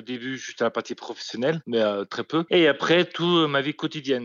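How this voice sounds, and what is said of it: Deaf speaker's accent. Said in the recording (French): “Certains disent que j'ai un accent hmm, belge, alsacien, lyonnais. Rien de tout cela, Je suis un accent sourd, tout simplement.”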